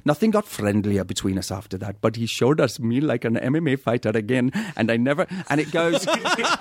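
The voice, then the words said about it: Attempted Welsh accent impression. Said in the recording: “my impression badly because I've been away for like two days and I've lost it ... your Welsh is getting better ... think of Matthew Rhys”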